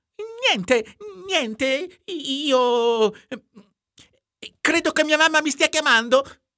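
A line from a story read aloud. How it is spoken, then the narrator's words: Stammered. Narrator (Italian): balbettò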